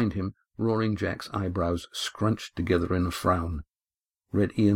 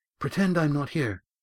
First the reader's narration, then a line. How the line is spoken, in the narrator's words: gasped Estrella